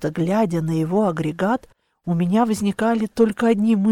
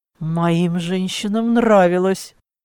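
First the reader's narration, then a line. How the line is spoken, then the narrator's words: Almost growled. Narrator (Russian): почти прорычал Клаус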